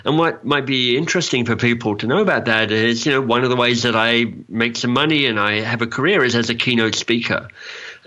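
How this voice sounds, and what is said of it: Mixed Australian, English, Canadian accent. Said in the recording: “I'm an Australian, so I've got an Australian accent, and I lived in England for a while, so I've got a kind of English accent, and I now live in Canada, so I've kind of got a Canadian accent ... my kind of confused accents”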